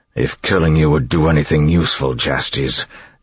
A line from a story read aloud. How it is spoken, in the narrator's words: Elend growled